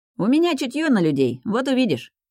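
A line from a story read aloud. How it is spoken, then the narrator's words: Cheerful, persuasive. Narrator (Russian): весело убеждает Лаки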